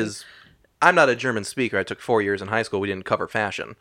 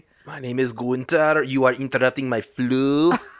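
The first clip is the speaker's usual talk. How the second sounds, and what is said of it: Attempted German accent. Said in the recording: “I don't know German accents.”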